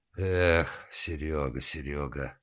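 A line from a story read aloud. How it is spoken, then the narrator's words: Sighing. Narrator (Russian): вздохнул Гуров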